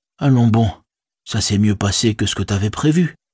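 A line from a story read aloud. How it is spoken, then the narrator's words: Said determinedly. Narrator (French): dit-il d'un ton déterminé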